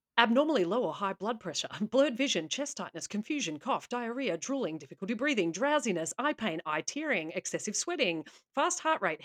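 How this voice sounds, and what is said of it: Rapid-fire American drug-commercial voice. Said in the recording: “my very best impression of an American pharmaceutical commercial and give you a rapid-fire list of symptoms”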